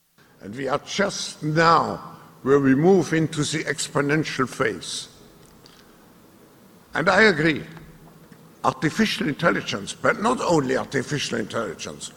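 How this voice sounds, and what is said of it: Thick hard-to-understand accent. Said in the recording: “if you can understand his thick accent. ... Nazi accent.”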